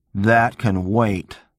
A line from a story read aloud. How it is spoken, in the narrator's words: Jefferson snapped